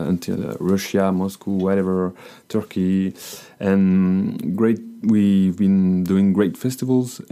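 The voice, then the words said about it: French accent. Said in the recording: “I have got a bad accent, a French accent,”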